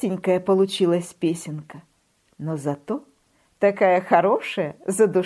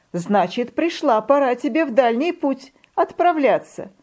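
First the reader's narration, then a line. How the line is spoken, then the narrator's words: Laughing. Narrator (Russian): рассмеялась зима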